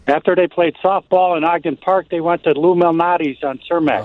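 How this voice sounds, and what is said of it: Strong Chicago accent. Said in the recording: “Oh, that's so beautiful. That's beautiful accent.”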